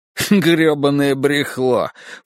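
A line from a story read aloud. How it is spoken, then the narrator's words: Snorting. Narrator (Russian): фыркнул мистер Синий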